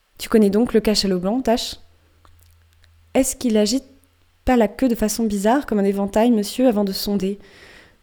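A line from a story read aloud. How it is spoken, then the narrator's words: Calm, steady sailor's voice. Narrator (French): demande le marin de Gayhead d'une voix posée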